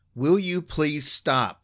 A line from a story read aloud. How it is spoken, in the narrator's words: I instinctively yelled